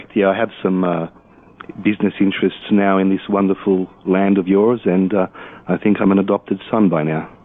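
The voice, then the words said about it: Australian accent. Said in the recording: “by the sound of your accent, you're not in the Blue Ridge Mountains ... Originally from Sydney, Australia.”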